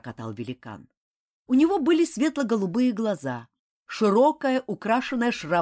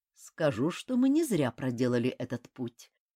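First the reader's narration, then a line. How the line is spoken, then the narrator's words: Quiet reply. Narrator (Russian): также негромко отозвался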